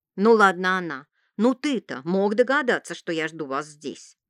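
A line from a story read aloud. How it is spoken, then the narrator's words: Grumbling fortune-teller. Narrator (Russian): проворчала гадалка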